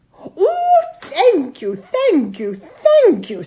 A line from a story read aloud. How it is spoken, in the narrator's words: said the deaf king excitedly